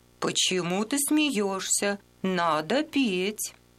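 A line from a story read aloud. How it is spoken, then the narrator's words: Stern drawn-out question. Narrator (Russian): Она строго и протяжно спросила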